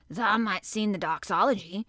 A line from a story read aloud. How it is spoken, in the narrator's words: suggested in his driest grunt